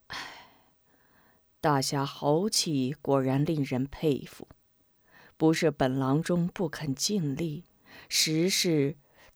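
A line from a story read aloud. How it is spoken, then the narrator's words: Admiring sigh. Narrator (Chinese): 老神医敬佩的……叹口气道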